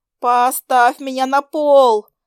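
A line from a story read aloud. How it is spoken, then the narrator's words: Nauseous yell. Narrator (Russian): заорала я, когда поняла, что меня вот-вот стошнит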